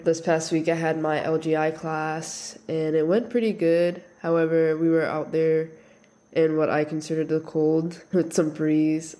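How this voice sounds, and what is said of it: Voice sounds sick, under the weather. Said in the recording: “Please excuse my voice. I'm a bit under the weather.”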